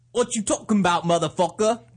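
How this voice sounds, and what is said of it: Poor put-on British accent. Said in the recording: “Do the British one now like that ... neither one's very good”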